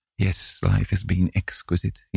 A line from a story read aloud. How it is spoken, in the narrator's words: he murmured